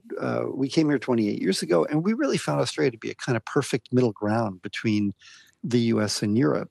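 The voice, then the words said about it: American accent. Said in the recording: “from my accent, you can hear that I'm a migrant, and I migrated from America”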